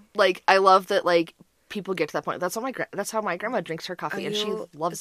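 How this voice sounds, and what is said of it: Very fast, excited speech. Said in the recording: “I'm talking really fast now.”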